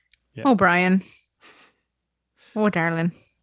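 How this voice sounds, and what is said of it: Put-on Irish accent. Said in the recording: “Oh, Faith and Begora. Why did you do an Irish accent to say that?”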